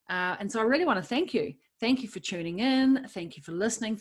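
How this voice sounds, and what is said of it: New Zealand accent. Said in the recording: “my Kiwi accent. For some of you, I know it's hilarious.”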